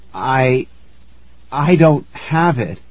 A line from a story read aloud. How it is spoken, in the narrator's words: I stammered